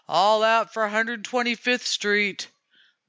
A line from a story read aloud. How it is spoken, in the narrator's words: to Kitty it was a mere human bellow